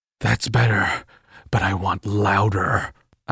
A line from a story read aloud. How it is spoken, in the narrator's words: I growled in her ear